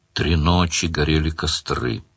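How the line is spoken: Muttering from behind. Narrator (Russian): бормотал за спиной радужный демон

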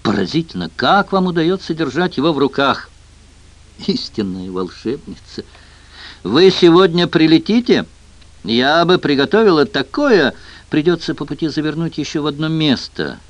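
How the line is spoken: Sighing. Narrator (Russian): вздохнула Дэйна

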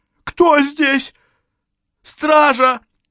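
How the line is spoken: Blind man's cracking shout. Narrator (Russian): Слепец попытался крикнуть, но голос сорвался

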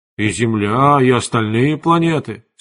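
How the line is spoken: Plain. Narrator (Russian): сказал Эверард

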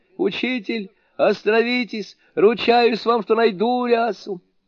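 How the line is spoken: Screaming in agony. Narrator (Russian): Суню-кун не в силах вынести адской боли, завопил

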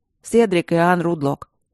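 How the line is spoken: Through gritted teeth. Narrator (Russian): сквозь зубы произнес Энтери

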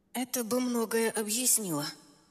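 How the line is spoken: Strained mutter. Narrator (Russian): натянуто пробормотала я

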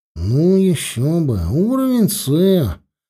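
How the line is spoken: Displeased grumble. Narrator (Russian): проворчал недовольно Петька

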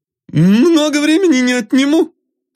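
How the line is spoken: Friendly shout. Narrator (Russian): закричал он дружелюбно

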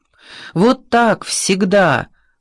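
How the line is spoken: Group shouting at once. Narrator (Russian): сразу закричали инвалиды

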